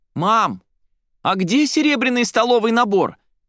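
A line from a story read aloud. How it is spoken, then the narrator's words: Shouting from another room. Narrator (Russian): прокричала Соня из кладовой на весь дом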